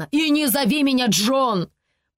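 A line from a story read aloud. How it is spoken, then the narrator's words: Growled. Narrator (Russian): прорычал он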